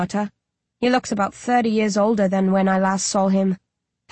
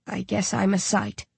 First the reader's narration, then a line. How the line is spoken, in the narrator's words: he says wearily